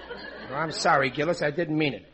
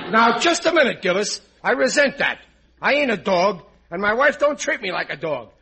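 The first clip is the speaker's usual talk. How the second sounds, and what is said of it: Angry yelling. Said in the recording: “Why are you yelling at me? ... I just blew my top”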